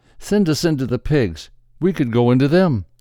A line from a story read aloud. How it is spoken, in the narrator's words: They begged Jesus